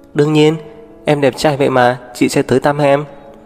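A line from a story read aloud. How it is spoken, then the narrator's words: Smiling. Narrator (Vietnamese): Tố Diệp mỉm cười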